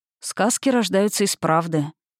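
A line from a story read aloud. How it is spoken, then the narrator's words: Soft and quiet. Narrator (Russian): мягко, негромко ответил Николас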